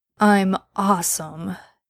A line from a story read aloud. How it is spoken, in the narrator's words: Dean argued sleepily